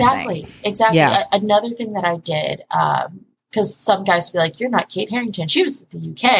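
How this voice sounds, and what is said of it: Usual voice. Nothing is said of it.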